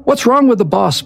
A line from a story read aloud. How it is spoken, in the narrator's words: barked Beria